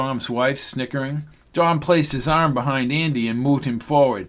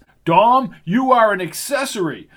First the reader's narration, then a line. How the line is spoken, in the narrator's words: shouted Hobart from the door